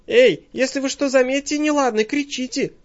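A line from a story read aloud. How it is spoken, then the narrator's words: Sharp call. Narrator (Russian): окрикнула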